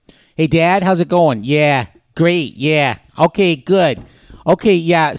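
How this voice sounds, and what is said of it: Put-on New Hampshire accent. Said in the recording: “I will give you a taste of the worst accent ... What do you think is the worst sounding English? ... New Hampshire ... It's terrible.”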